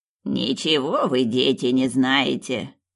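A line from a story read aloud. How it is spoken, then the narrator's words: Grumbling old woman. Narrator (Russian): проворчала бабка Тоня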